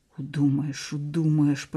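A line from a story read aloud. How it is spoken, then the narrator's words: Hissed. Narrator (Russian): прошипел Сенька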